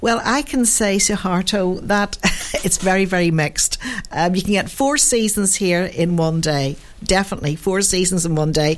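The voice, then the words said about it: Irish accent. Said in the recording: “I love to hear the Irish accent.”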